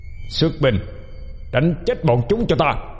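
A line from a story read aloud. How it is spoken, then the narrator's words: Loud roar. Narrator (Vietnamese): Mã tướng quân gầm to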